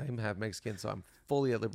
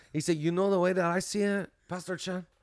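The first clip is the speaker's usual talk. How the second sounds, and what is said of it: Put-on Hispanic accent. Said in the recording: “this Hispanic dude ... This is a great accent”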